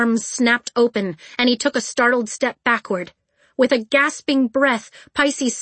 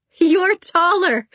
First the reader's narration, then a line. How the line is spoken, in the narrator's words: Pisces laughed